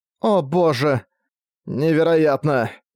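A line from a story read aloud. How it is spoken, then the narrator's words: Groaning in unison. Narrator (Russian): Эйлин и Дека одновременно застонали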